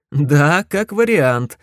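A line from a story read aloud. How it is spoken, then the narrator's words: Laughing. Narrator (Russian): засмеялся я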